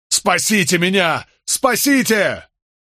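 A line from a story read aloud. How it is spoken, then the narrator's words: Frantic full-throated yell. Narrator (Russian): Болейн заорал во всю глотку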